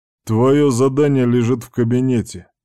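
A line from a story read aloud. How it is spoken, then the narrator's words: Deep male voice. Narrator (Russian): пробасил незнакомый мужской голос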